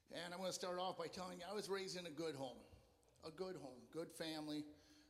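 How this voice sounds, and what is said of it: Slightly hoarse voice. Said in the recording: “If I'm a little hoarse, it's because I was singing really loud.”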